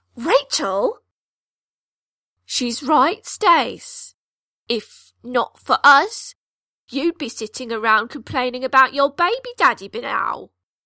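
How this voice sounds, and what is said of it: Passable Cockney accent. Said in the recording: “Her Cockney accent is serviceable”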